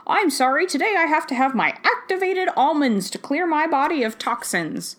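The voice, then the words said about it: Posh old-fashioned rich-person accent. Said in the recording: “I don't know what accent that is ... It's a fancy rich person in the 19th century.”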